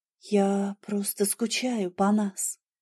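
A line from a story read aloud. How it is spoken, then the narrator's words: Quiet. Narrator (Russian): тихо сказала я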